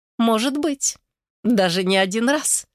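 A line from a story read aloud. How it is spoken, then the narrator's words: Laughing again. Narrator (Russian): снова рассмеялась Геля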